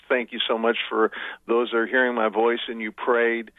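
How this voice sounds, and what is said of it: Choked-up, emotional voice. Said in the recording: “little choked up.”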